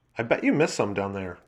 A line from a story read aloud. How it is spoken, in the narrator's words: Joan said